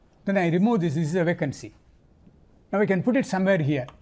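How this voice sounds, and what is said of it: Non-native accent. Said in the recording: “Sorry for my bad accent.”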